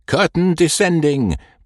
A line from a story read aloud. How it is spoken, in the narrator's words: with a shout of